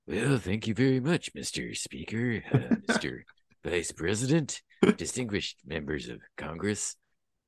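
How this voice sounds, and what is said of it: Bad imitation of another person's voice. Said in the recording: “my bad Ronald Reagan impression.”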